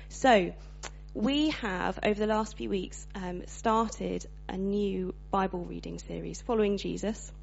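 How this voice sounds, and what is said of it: Slightly hoarse voice. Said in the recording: “slightly hoarse this morning. I've got a bit of a cold”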